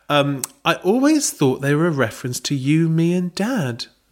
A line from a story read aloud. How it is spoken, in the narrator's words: Belinda said sweetly